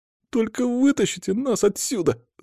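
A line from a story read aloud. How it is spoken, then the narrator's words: Whining plea. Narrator (Russian): заскулил Боря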